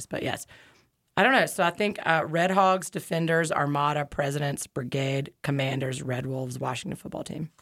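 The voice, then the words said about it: Hoarse, strained voice. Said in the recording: “I'm losing my voice”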